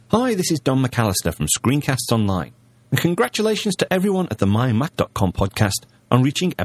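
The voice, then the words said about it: British accent. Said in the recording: “a nice British accent”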